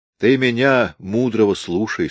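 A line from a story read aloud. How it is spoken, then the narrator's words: Plain. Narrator (Russian): сказал дядя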